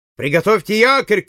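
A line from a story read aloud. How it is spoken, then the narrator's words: Shout. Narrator (Russian): крикнул Байфилд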